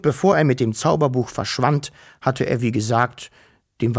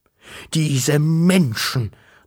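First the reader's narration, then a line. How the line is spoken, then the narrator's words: Thundering voice. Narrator (German): donnerte er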